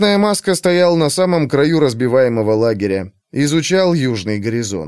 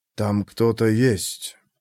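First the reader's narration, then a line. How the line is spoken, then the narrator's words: Quiet. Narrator (Russian): произнес тихо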